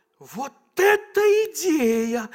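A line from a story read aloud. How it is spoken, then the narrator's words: Exclaimed. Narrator (Russian): воскликнул Иуда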